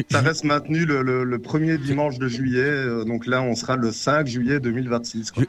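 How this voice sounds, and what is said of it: Light Belgian French accent. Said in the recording (French): “tu as un léger accent belge”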